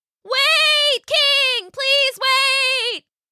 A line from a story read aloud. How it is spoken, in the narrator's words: she shouted as best as she could underwater